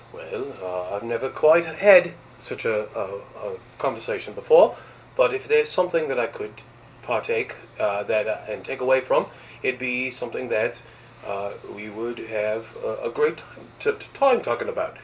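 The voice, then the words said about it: Put-on British accent. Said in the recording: “now go into a British accent.”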